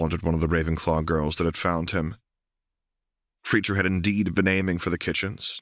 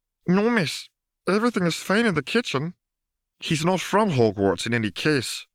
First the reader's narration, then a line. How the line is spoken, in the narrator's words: pointed out while anxiously squeezing one of his ears